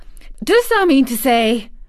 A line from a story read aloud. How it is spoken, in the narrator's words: cried Martha